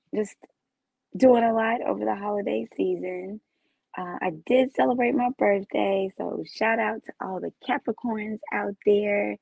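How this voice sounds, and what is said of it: Raspy, hoarse voice. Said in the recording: “apologize for my voice. Been a little raspy”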